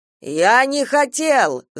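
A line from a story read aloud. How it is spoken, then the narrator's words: Yelling. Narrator (Russian): завопил Шурик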